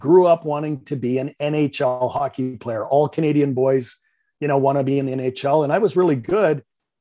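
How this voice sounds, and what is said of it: Slight Canadian accent. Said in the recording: “You might detect a little bit of a Canadian accent ... just a little bit”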